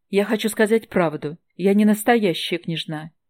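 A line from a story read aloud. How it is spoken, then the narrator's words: Relieved exhale. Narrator (Russian): с облегчением выдохнула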